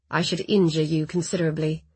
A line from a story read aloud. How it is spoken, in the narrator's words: he said in a low voice